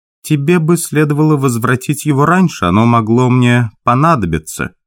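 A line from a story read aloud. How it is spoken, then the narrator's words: Displeased tone. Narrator (Russian): та ей сказала недовольным тоном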